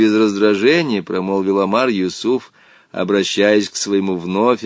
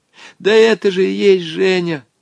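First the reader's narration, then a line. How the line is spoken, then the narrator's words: Desperate exclamation. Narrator (Russian): с отчаянием воскликнул Волька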